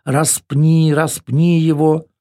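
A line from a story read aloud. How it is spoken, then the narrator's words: Crowd shouting repeatedly, drowning out. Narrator (Russian): Толпа снова и снова заглушая слова Пилата, кричала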